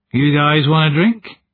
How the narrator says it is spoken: He laughed

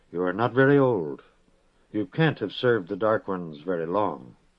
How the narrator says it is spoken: he said gently

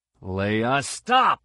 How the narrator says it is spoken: Han yelled

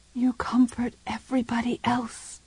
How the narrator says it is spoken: she whispered

